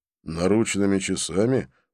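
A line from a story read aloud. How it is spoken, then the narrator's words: Gloomy questioning. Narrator (Russian): мрачно переспросил он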